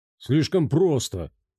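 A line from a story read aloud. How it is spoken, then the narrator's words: Grumbling. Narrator (Russian): проворчал Горький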